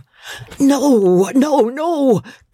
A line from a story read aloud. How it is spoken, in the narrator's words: cried the old man